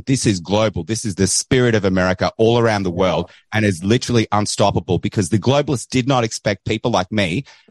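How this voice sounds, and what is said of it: Australian accent. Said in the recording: “Don't don't worry about the Australian accent.”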